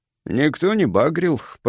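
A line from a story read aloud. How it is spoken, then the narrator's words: Grumbled. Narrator (Russian): проворчал он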